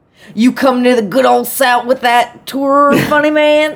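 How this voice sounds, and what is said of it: Thick Southern Gator accent. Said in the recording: “to be read in a thick Gatorlicious accent ... That was a terrible Gator. ... It was pretty good.”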